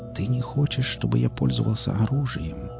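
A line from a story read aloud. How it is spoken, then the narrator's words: Whispered. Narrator (Russian): прошептал Тек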